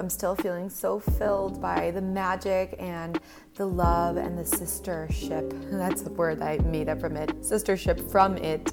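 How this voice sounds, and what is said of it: Voice a little rough from cold. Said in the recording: “my voice is a little shot because I think I got a little cold”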